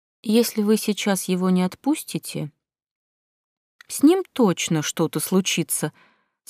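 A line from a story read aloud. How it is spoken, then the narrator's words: Calm vampire's statement. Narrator (Russian): спокойно заявил вампир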